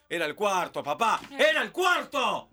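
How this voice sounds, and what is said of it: Shouting excitedly. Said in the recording (Spanish): “No grites. ... No grites.”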